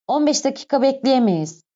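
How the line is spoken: Plain. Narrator (Turkish): dedi

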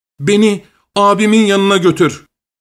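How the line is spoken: Crying out. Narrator (Turkish): diye haykırmış

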